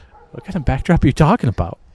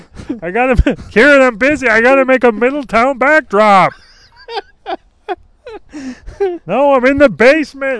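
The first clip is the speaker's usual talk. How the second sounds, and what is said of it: Yelling. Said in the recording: “That's why I'm yelling.”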